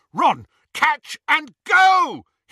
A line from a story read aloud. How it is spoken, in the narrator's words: he yelled